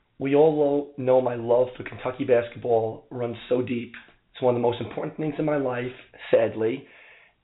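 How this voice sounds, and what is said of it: Strained, worn-out voice. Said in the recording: “apologize for my voice ... I might have done a little bit of yelling at the game”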